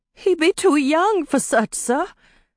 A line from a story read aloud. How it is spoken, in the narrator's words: Teenie said, her voice full of pleading